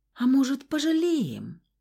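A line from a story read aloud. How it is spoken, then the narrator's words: Timid squeak. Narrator (Russian): Робко пискнула Хевери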